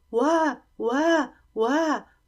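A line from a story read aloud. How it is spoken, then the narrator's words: Wailing. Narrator (Chinese): 乌鲁这么一哭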